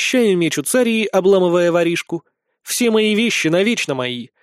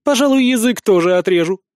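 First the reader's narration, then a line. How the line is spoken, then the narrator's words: Snapped. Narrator (Russian): огрызнулась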